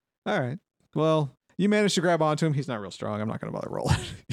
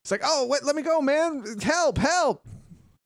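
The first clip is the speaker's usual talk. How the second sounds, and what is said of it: Shouting character voice. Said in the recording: “that's what he's shouting”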